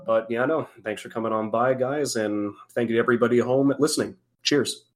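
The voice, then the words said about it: Hoarse, dry-throated voice. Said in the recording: “my throat is incredibly bloody dry ... It's hoarse.”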